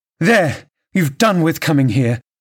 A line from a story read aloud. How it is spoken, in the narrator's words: cried Catherine